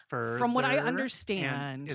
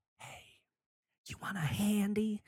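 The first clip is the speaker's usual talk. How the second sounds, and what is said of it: Whispered line. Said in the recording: “is it like a whisper?”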